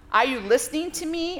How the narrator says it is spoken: I roared in silent rage

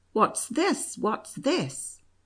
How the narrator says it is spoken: The counsellor exclaimed

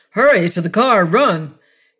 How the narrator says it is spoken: In terror, he shouted to Mara and Jan

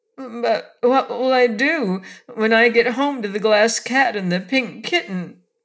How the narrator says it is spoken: asked the little dog in an anxious voice

